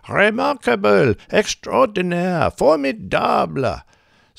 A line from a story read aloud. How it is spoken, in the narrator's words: The crowd cheering and shouting